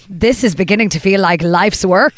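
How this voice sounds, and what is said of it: Attempted Northern Irish accent, Ted Hastings. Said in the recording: “Please do it in the accent, please... I can't do a Northern Irish accent... memorable dialogue, which was said by Ted Hastings”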